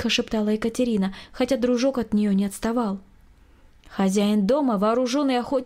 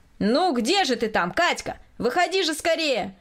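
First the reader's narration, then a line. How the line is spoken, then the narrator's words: Impatient shouting. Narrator (Russian): кричал от нетерпения Николай Васильевич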